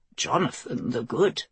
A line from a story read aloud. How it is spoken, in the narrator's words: Father Tyler murmured beside her